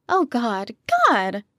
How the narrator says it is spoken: Kitty yelped

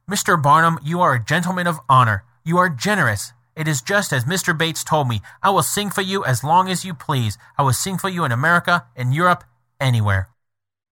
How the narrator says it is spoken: she cordially exclaimed

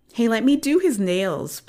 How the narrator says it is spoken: pleaded Lisa

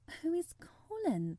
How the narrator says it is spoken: she faltered

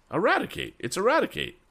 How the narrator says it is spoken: exclaimed Tom

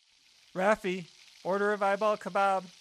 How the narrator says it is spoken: yelled over my shoulder

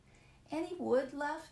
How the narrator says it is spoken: asked sleepily

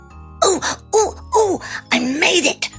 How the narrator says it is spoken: Hobnob cried as he ran

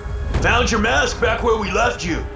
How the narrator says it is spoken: shouted from a few rows away

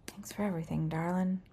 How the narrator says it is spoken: You quietly say to yourself

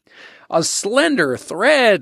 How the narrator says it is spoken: Lodge scoffed

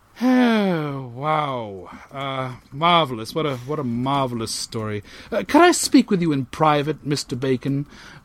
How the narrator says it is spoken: muttered Parson Partridge

